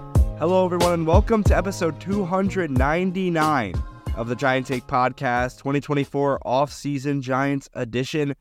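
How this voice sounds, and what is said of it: Congested voice from a cold. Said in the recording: “If you can't tell by my voice, I'm a little bit under the weather ... I just have a common cold”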